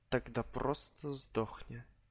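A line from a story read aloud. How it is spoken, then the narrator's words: Weary sigh. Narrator (Russian): Устало вздохнул я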